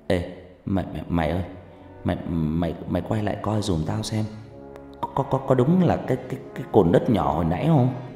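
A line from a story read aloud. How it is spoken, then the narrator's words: Stammering. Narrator (Vietnamese): Nó lắp bắp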